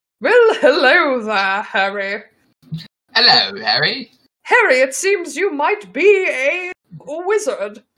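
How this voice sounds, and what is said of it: Posh British accent as Hagrid. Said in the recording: “So that he speaks with a perfectly posh British accent.”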